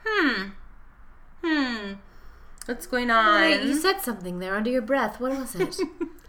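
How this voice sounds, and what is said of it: Loose impression of Camila's accent. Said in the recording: “that was not her accent, but ... The spirit is there. The spirit's there.”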